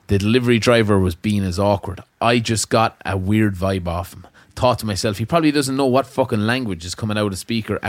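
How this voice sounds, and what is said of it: Midlands accent. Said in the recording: “my Midlands accent”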